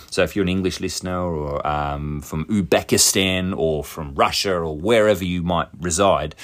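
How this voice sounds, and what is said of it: Mixed Australian English accent. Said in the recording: “my dialect isn't even really Australian. It's this weird bastardized version of the English language and the Australian accent. ... I'm sort of somewhere in the middle”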